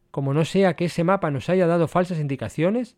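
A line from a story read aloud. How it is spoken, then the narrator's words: Plain reply. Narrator (Spanish): respondió Donifán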